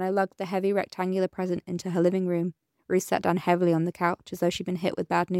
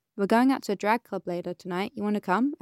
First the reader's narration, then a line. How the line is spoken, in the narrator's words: Esperanza asked